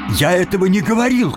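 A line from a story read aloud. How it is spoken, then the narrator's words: Shouting. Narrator (Russian): крикнул Тим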